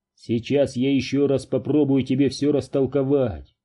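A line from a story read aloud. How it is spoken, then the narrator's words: Plain. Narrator (Russian): сказал Дью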